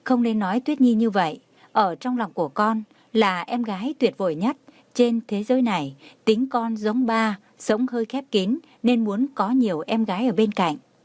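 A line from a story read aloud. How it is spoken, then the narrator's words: Smiling. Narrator (Vietnamese): Tường Thiên Lỗi mỉm cười nói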